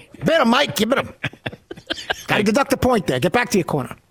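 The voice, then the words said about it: Imitates another person's voice. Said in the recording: “do a Mills Lane impersonation”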